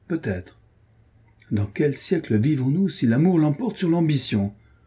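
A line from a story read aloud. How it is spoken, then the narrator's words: Cheerful. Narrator (French): dit gaiement Adrienne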